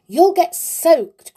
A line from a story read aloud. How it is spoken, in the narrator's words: cried the bear